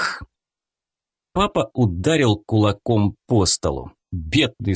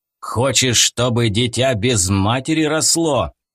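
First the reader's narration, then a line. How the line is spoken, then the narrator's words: Growling. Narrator (Russian): прорычал он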